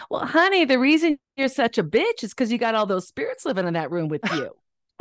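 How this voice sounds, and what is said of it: Imitated Southern accent. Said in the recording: “she had a Southern accent.”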